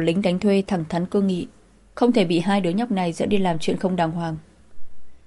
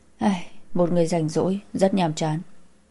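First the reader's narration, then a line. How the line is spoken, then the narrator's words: Moved sigh. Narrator (Vietnamese): Ông xúc động thở dài một hơi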